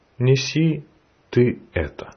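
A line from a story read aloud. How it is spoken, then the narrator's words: Plain. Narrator (Russian): сказал он ему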